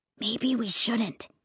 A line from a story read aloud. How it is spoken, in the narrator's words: he whispered